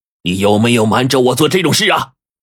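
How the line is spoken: Stern, sharp, pained. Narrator (Chinese): 他忍住头痛 厉声问身旁的狗秘书

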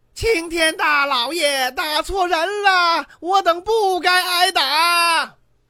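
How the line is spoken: Raised-voice shout. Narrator (Chinese): 胆子大的提高了音量的喊

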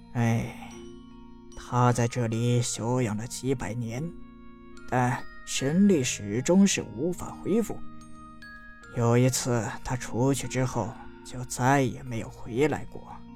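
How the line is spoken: Sighing old man. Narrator (Chinese): 老人叹了口气，道

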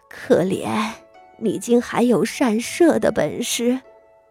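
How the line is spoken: Tearful sigh. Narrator (Chinese): 他 落了泪，叹道

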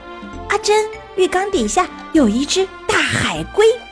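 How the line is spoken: Panicked cry. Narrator (Chinese): 他慌里慌张地叫道

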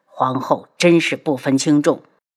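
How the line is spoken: Emperor's angry snort. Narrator (Chinese): 皇上气得怒哼一声

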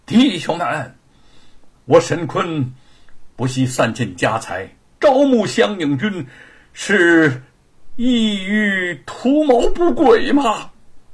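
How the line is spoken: Loud address. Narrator (Chinese): 沈坤面对状元军，大声的说

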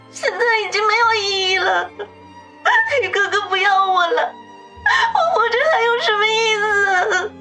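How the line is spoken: Bursting into tears, aggrieved. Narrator (Chinese): 子双忽然哇的一声哭了起来，似乎要把所有的委屈都借此发泄出来

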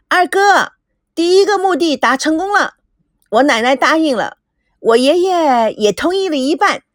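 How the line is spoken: Hurried shouting. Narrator (Chinese): 赶紧朝着赵熙喊着

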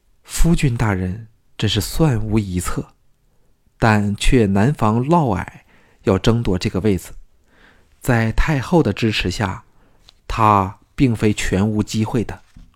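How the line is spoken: Admiring. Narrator (Chinese): 季嫣然赞叹道

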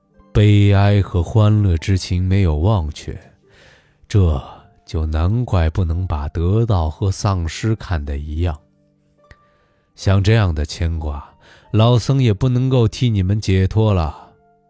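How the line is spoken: Sobbing, long sigh. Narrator (Chinese): 听得呜呜啜泣的声音，又听到长叹的声音，说

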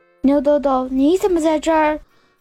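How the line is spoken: Startled, delighted shout. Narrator (Chinese): 小葵吓得一激灵，突然惊喜地喊道

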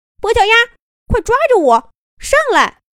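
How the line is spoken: Loud, urgent. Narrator (Chinese): 三道杠大声说道

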